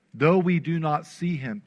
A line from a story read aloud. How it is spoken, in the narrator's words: Peter says